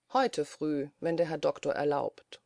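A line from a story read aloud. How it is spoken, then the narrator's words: Calm. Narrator (German): sagte Schwiebus ruhig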